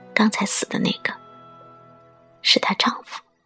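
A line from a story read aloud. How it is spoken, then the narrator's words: Soft murmuring. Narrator (Chinese): 有人轻声议论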